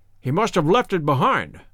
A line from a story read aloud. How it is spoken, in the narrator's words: muttered my companion